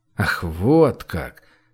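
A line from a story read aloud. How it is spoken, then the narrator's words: Mumbling. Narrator (Russian): пробормотал Гош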